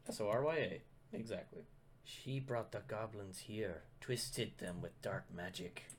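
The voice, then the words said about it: Put-on character accent. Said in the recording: “Drop the accent. ... I'm picking up the accent.”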